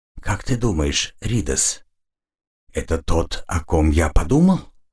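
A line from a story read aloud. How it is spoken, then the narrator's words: Whispered question. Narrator (Russian): шепотом спросил Алиш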